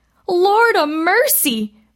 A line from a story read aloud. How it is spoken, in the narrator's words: cried